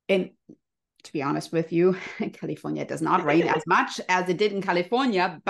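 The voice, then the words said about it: German accent. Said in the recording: “because I grew up in Germany, you can hear my cute little accent.”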